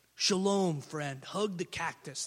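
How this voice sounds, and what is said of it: Impression of Keith Kiesler. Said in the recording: “That's my Keith Kiesler impression.”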